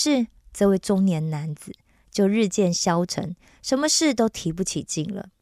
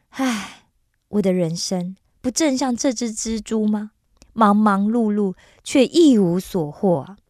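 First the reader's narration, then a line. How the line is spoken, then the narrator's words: Deep sigh, to himself. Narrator (Chinese): 一个人深深的叹了一口气，自言自语的说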